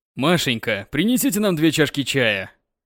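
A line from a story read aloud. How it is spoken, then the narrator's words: Sexy voice. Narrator (Russian): произнес сексуальным голосом новый начальник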